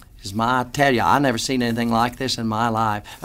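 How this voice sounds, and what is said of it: Put-on Texan drawl like Gomer Pyle. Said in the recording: “a Texan ... It almost sounded like ... Gomer Pyle ... I don't know what accent I used. But whatever it was pretty nauseating.”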